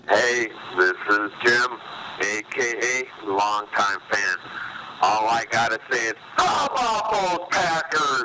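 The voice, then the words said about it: Raw, hoarse voice. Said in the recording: “My voice is getting pretty raw right now. I've been screaming for the last 20, 30 minutes.”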